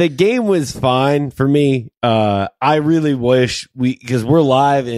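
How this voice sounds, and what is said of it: Usual voice. Nothing is said of it.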